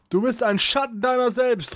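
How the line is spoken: Calling out. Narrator (German): rief Kunibert

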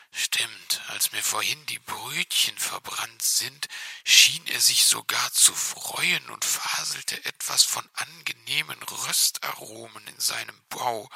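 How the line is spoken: Small fox whispering reply. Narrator (German): entgegnete der kleine Fuchs flüsternd

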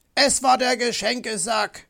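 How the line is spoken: Bellowing. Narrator (German): brüllte Herr Fuchs

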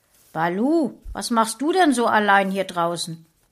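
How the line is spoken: Sudden call. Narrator (German): Plötzlich rief ein Artgenosse

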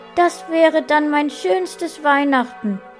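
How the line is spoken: Calling out. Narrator (German): rief Paula

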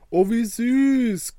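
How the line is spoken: Delighted squeal. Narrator (German): quiekte Soraya vor Freude

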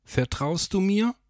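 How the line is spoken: Calling out forward. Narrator (German): rief Rodriguez nach vorn

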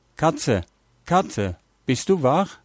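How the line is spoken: Called out. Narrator (German): Er rief

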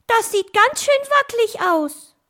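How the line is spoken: Calling out. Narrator (German): rief Bostel

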